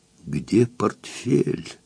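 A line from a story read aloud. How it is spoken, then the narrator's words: Ghost's hissing whisper. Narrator (Russian): свистящим шепотом спросил призрак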